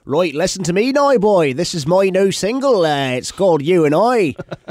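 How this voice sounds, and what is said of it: Put-on rural Ipswich English accent. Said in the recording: “in Ipswich, they talk like ... It's like super it's farmery.”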